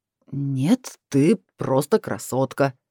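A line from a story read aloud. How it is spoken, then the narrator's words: Lying. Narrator (Russian): соврал он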